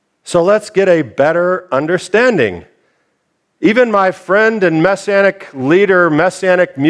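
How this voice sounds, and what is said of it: Usual voice. Nothing is said of it.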